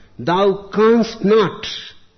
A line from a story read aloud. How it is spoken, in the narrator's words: the man cried out